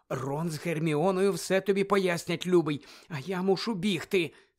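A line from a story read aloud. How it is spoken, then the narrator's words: Anxious whisper. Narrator (Ukrainian): стривожено зашепотіла місіс Візлі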